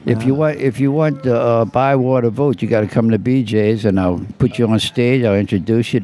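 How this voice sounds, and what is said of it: New Orleans accent. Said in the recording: “I can also tell by your accent that you are from New Orleans”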